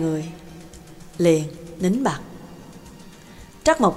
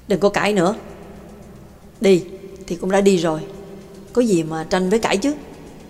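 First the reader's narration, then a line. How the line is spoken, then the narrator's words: Cold voice. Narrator (Vietnamese): Giọng nói lạnh lùng của bà Tàng cất lên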